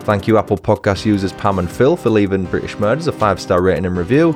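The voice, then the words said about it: Northern English accent. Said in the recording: “Love ... accent... His voice, although northern, isn't too annoying”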